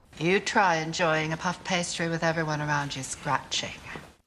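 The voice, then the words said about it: Moira Rose's put-on accent. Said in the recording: “Catherine O'Hara does a, you know, first walked in and did her accent as Moira ... her delivering those lines in that accent”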